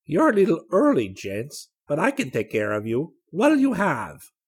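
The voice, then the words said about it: Soft voice with unidentifiable accent. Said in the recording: “in a surprisingly soft voice in which there was an accent that Rick couldn't identify”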